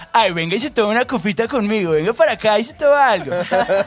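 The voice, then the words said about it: Exaggerated posh Bogotá accent. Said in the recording (Spanish): “acento Rolo, más representativo, digamos que, del cual todo el mundo se burla ... el más fresa de Bogotá ... la exageración ... horrible, es horrible”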